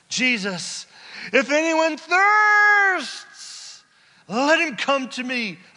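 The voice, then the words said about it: Shouting loudly. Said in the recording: “I'm shouting,”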